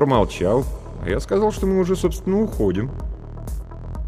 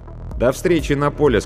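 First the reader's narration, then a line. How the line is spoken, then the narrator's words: Plain. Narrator (Russian): сказал Артур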